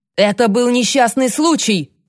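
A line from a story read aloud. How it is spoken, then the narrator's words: Forceful yelling. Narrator (Russian): заорал Дон с такой силой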